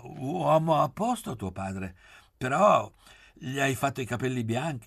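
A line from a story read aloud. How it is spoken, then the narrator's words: Stammering. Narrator (Italian): ci capì, si morse il labbro e balbettò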